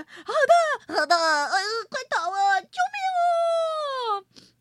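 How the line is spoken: Crowd shouting. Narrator (Chinese): 古怪国的居民们纷纷喊着

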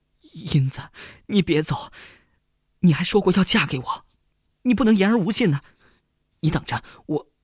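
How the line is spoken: Sobbing loudly. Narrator (Chinese): 何建飞 忍不住 大哭起来

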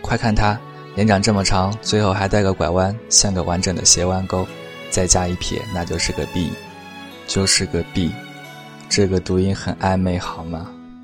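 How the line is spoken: Laughing hard. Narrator (Chinese): 捧腹大笑

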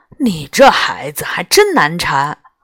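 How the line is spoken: Sighing. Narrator (Chinese): 刘叔叔叹了口气

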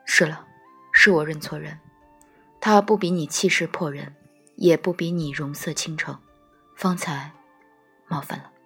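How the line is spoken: Calm after long silence. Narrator (Chinese): 糯米团子爹沉默良久，方淡淡道

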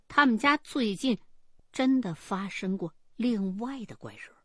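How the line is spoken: Slow, hesitant. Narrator (Chinese): 过了一会儿，他自个儿才慢吞吞的说

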